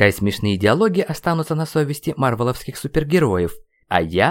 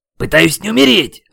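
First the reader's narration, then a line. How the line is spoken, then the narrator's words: Barked shout. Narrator (Russian): рявкнул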